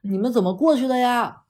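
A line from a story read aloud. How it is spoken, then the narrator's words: Girl shouting. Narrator (Chinese): 她那个女生在喊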